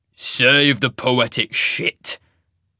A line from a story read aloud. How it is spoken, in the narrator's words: the wolf snarled, Isaac's final utterance obviously having proved one grandiose proclamation too far